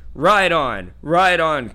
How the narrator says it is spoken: cried Glorfindel

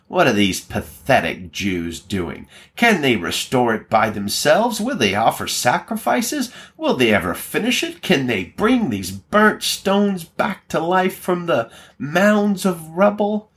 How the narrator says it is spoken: He mocked the Jews and said

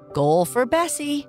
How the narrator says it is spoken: I'd shout

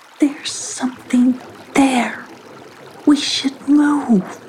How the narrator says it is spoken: whispered Tula

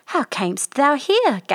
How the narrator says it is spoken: gasped the prince

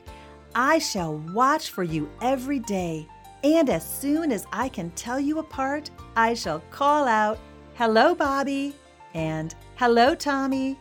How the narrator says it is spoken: The little school bus answered happily

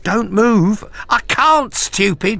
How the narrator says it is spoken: cried, clutching her spine

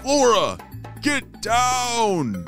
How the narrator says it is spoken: Ramesses called out

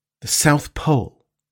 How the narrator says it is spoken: replied Captain Nemo, in a grave voice

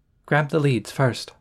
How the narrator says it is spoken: RJ murmured

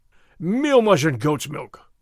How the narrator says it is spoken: Gonzales cried

